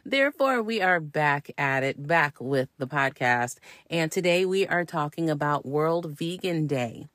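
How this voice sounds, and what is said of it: Slightly gravelly, hoarse voice. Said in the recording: “let me apologize if my voice sounds a little ashy or gravelly or whatever. If it just sounds off, it's because I'm on the mending side of COVID right now.”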